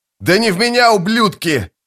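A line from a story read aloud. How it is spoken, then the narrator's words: Yelled in Malazan. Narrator (Russian): заорал по-малозански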